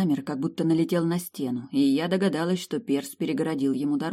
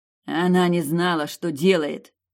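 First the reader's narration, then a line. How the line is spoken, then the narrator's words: Growled. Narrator (Russian): рыкнул Сорин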